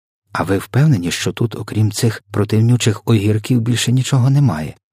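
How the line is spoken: Plain. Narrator (Ukrainian): запитала вона

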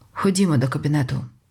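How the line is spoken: Plain. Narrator (Ukrainian): сказав Джо

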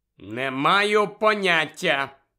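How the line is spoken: Loud reply. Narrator (Ukrainian): голосно відповів Гаррі

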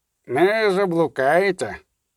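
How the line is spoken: Gloomy soldier's grumble. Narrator (Ukrainian): буркнув похмуро другий солдат

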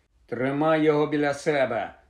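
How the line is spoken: Irritated grumble. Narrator (Ukrainian): роздратовано буркнув Рон

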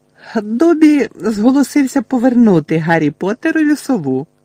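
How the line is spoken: Excited squeak. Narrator (Ukrainian): пропищав ельф із захопленим виразом

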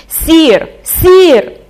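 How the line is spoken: Desperate shout. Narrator (Ukrainian): закричав він у розпачі

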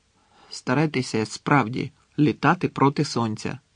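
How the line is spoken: Reluctant grumble. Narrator (Ukrainian): неохоче буркнув

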